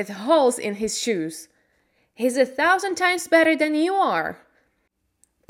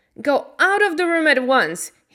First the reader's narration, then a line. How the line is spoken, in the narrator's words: he shouted